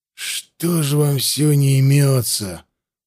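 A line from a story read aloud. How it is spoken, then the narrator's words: Grumbling. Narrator (Russian): проворчал Хаста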